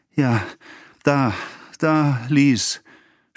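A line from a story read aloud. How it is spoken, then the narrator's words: Stammering, failing voice. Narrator (German): stammelte mit versagender Stimme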